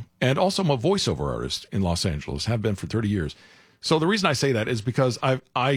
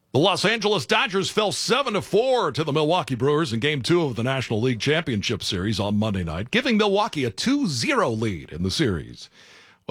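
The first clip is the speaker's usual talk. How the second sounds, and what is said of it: Sports broadcast announcer voice. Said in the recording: “in my classic audition voice ... broadcast announcer for football or baseball”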